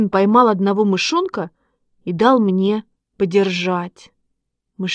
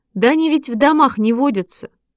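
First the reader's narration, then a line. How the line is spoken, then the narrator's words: Laughing. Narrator (Russian): засмеялся Шишкин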